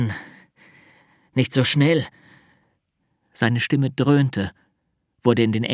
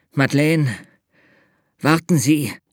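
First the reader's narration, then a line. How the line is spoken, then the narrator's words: Gasping. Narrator (German): Er keuchte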